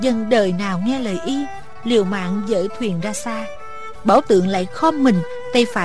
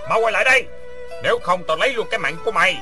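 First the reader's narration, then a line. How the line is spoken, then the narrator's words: Suspicious shout. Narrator (Vietnamese): Bảo Tượng sinh nghi hét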